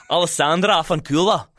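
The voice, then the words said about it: Put-on Scottish accent. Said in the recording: “Can you try again in a Scottish accent? ... That was really good.”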